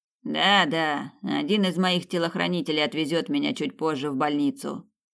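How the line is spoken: Grumbled. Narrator (Russian): пробурчал Янус

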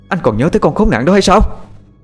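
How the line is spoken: Furious woman shouting. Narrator (Vietnamese): vợ anh lúc này mặt đỏ như gấc, cô ta quát lên

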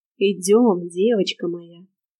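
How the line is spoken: Contented purr. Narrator (Russian): довольно промурлыкал Шерион

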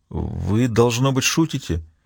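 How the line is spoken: Forced out, strained. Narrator (Russian): он выдавил из себя

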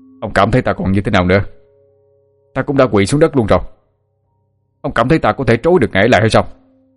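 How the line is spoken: Shouting back. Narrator (Vietnamese): Chu phục sinh quát ngược lại rùa thần

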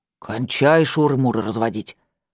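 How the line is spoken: Stern order. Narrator (Russian): строго велел он своему работнику

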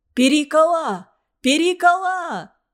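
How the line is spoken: Shouting. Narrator (Russian): кричал я

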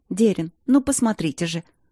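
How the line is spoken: Excited babbling woman. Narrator (Russian): взволнованно пролепетала женщина

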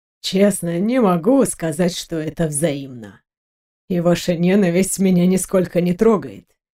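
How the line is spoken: Calm. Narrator (Russian): спокойно проговорил Леандро

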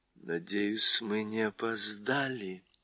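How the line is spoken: Quiet. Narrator (Russian): тихо прибавила Уинни

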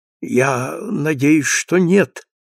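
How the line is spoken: Weak voice. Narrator (Russian): отвечал Тоби слабым голосом

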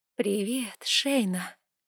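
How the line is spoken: Whisper. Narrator (Russian): произнесла шепотом вампирша

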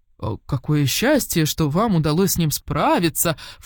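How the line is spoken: False exclamation. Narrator (Russian): фальшиво воскликнул он

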